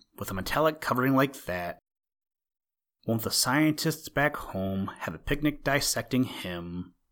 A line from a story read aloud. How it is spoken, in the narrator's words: Rob murmured